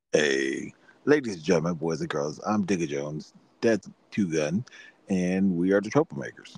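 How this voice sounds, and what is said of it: Announcer-style podcast voice. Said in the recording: “podcast voice ... you have a different voice for the podcast ... Your announcer voice.”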